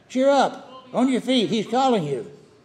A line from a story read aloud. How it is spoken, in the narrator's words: they called out to the blind man